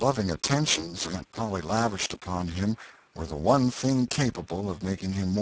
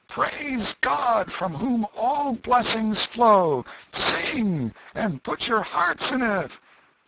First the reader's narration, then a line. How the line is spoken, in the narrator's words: the minister shouted at the top of his voice